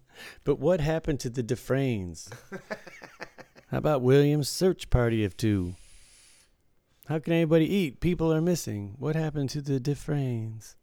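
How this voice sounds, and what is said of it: Good Mitch Hedberg impression. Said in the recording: “Mitch Hedberg ... You do a good impression, because I knew his whole style, his whole demeanor.”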